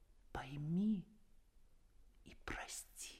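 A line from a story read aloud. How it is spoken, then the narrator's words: Quiet addition. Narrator (Russian): тихо прибавил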